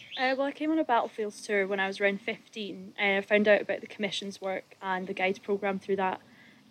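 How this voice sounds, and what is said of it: Scottish accent. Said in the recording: “I'm from Fife in Scotland. ... I thought I recognised an accent.”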